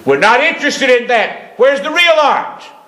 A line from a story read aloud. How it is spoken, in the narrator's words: The other fellow hollered out